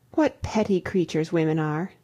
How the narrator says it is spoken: I exclaimed

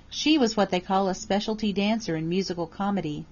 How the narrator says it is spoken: Lydia answered

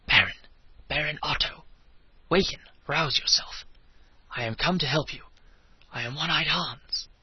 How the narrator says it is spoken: a voice whispered in his ear

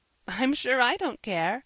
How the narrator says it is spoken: laughed Mrs

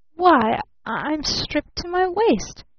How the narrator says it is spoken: he stammered in real horror

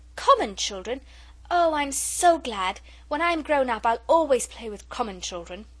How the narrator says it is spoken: the little girl cried out

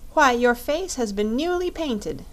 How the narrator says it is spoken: exclaimed Dorothy

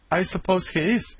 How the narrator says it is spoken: said Dab-Dab

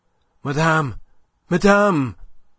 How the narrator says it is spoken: he panted out of breath

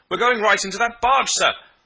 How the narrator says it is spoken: Another voice cried warningly

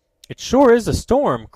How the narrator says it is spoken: cried Ned

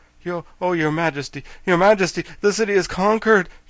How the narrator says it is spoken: gasped the royal army, who was all out of breath

